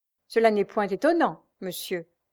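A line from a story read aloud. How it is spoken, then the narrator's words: Curt reply. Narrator (French): répliqua Jeanne d'un ton sec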